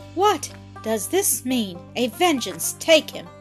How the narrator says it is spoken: cried the laird

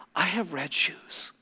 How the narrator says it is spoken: she would whisper

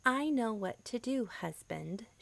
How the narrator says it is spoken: she replied

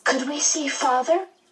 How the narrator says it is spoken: Meg asked eagerly

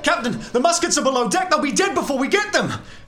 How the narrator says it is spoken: people start to scream

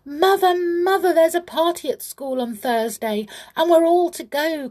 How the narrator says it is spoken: cried Teddy

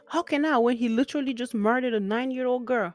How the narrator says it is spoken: I screamed

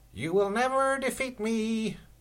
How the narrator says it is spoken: shouted Lord Negativity, cackling with glee

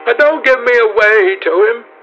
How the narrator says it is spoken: she whined

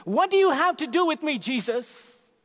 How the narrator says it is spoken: he shouted in a loud voice

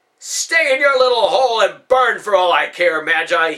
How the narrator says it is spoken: he yelled

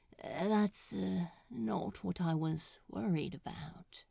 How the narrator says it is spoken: he murmured

